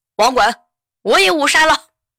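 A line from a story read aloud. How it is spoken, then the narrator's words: Excited shout. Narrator (Chinese): 后排一个哥们儿特别激动的喊了一句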